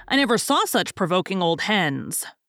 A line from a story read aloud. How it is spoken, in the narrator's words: growled Tommy